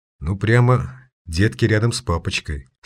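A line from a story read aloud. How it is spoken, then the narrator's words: Quiet remark. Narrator (Russian): негромко прокомментировал это зрелище Майер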